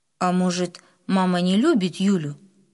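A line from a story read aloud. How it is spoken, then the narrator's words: Plain. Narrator (Russian): снова спросил папа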